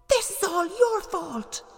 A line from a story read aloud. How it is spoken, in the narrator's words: Epimetheus cried